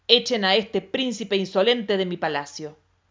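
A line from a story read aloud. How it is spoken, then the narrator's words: Thunderous imperial command. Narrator (Spanish): ordenó el emperador con voz de trueno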